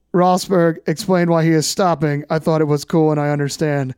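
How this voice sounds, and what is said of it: Robotic imitation of another person's voice. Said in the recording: “do a Kimi voice ... You're doing a Rabatis voice. That's too robotic. ... Kimi has more slurring”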